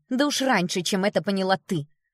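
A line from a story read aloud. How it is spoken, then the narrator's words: Snorting. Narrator (Russian): фыркнула Элли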